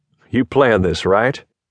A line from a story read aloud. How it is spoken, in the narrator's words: We laughed nervously